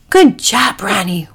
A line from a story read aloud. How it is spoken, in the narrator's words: whispered Packy